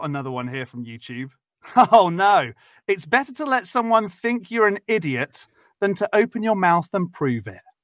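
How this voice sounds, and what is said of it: Speaks with a noticeable accent. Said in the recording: “I just use my accent ... I sound like this ... accent”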